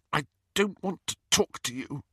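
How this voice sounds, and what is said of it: Constricted, tearful voice. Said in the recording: “she said in a constricted voice.”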